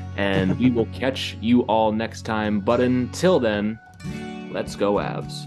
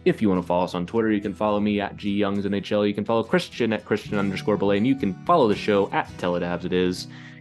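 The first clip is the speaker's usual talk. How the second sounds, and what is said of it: Rapid auctioneer-style delivery. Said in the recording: “Got my auctioneer voice going there.”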